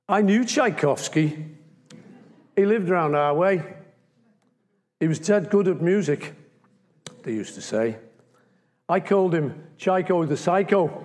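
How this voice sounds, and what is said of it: Liverpool accent. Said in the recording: “I've got to do this in a Liverpool accent.”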